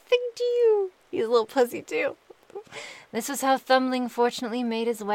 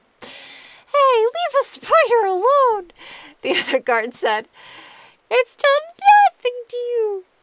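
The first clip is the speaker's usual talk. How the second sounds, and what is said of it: High-pitched character voice. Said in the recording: “I'm just going to pretend this guard has a really high voice, too.”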